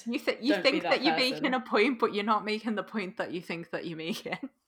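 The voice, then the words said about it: Posh Scouse accent. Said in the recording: “I bloody love your accent... You've got a posh Scouse accent”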